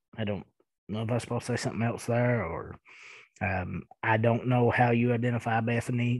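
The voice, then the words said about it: Thick Eastern Kentucky accent. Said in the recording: “I am from Eastern Kentucky and I do have a pretty thick accent”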